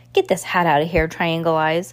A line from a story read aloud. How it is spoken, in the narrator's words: Count Olaf snarled